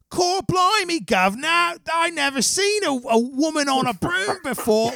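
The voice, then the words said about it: Exaggerated put-on Cockney accent. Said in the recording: “a step up from Dick Van Dyke's Cockney accent”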